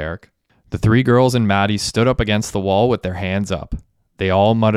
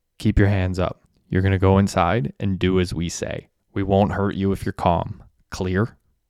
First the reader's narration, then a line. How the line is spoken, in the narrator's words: The masked man whispered